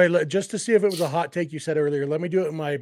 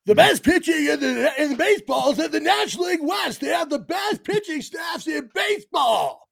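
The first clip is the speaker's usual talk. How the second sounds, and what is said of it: Imitated New York sports-radio voice. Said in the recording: “my Mad Dog Russo voice ... That was pretty good. That wasn't too bad. The New York radio voice”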